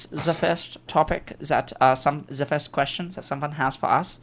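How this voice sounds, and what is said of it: Attempted German accent. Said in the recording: “I'm doing the best I can to make a cool German accent ... that's the best Austrian accent I've ever heard”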